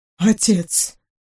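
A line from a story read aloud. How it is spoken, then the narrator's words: Quiet speech. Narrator (Russian): по-прежнему негромко сказал принц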